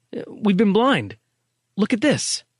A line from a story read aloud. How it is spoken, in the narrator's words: he gasped